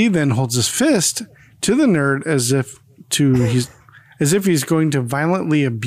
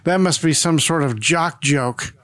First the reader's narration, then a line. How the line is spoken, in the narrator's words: A nurse standing by scoffs and says